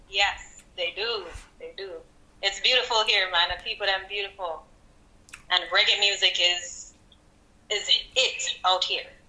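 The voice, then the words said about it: Jamaican accent. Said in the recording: “From straight out of Jamaica, Kingston, Jamaica ... Don't lose the accent”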